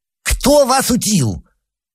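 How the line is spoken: Furious lisping shout. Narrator (Russian): закричал он, и в углах его шепелявого рта сбежалась пена

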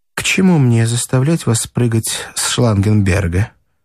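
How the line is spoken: Dry, hurtful tone. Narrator (Russian): сказала она сухо и как-то особенно обидно

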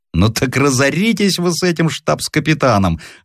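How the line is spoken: Openly laughing. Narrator (Russian): откровенно смеялся Край

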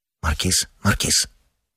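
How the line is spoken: Low-voiced scolding. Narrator (Russian): вполголоса сдерживал сосед

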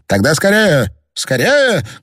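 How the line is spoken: Shouted. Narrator (Russian): крикнул Пруг

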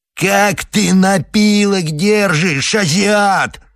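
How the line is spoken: Yelling angrily. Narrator (Russian): орал Худалеев

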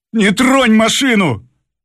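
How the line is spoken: Driver shouting. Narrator (Russian): крикнул шофер

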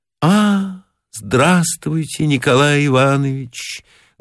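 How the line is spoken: Sad voice. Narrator (Russian): грустным голосом сказала Маргарита

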